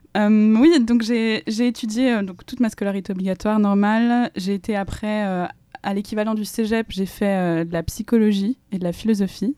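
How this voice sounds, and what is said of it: Swiss French accent. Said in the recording (French): “je viens de Suisse, que j'ai grandi en Suisse principalement, ça s'entend peut-être à mon accent”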